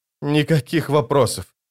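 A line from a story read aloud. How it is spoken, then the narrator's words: Groaned. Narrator (Russian): простонал Паран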